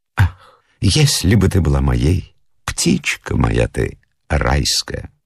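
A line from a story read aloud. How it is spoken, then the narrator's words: Whisper in the ear. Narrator (Russian): прошептать на ушко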